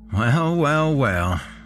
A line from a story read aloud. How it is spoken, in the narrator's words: he said with a slight laugh